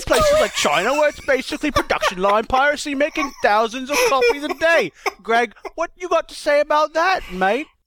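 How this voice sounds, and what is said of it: Exaggerated stereotypical British accent. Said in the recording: “he had to do a horribly stereotypical British accent”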